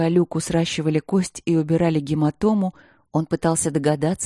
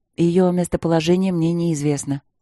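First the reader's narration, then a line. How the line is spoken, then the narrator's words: Calm reply. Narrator (Russian): спокойно ответил барон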